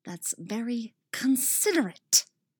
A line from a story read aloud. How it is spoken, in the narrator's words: she hisses